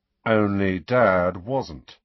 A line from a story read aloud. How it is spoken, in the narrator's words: said Fred grimly